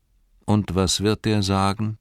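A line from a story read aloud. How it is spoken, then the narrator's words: Very calm. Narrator (German): sagte Frodo ganz ruhig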